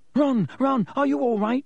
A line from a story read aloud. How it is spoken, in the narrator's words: squealed Hermione